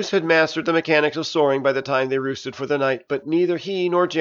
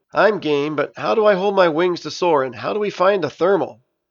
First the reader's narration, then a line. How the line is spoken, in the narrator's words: Janus laughed